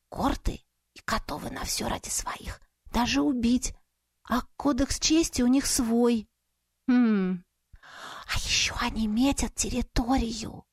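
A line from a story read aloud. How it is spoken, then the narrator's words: Excited whisper. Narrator (Russian): Возбужденным шепотом продолжила просвещать меня гостья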